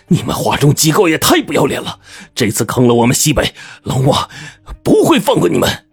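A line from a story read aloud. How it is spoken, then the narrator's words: Angry cursing. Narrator (Chinese): 我怒了，大骂道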